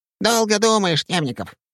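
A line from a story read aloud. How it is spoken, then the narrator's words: Thin squeaky voice. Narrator (Russian): пропищал он в ответ своим тонким голосом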